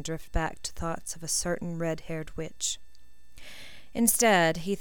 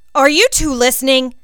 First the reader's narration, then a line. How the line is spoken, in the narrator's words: barked Higgins